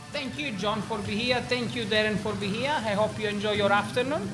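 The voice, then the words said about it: Genuine strong accent. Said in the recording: “That's not a put-on accent. That is the real deal.”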